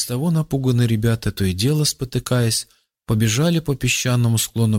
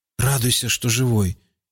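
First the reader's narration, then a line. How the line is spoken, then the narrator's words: Grumbled. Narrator (Russian): буркнул Рауф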